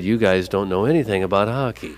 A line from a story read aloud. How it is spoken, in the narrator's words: politely, in a soft voice, said